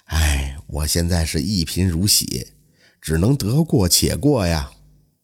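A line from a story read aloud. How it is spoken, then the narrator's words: Heavy sighing. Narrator (Chinese): 甘如堂唉声叹气地说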